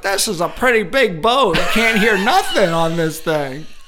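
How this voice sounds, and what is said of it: Funny put-on character voice. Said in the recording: “That's a funny voice”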